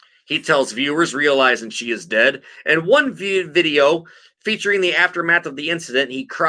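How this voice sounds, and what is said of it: Usual voice. Nothing is said of it.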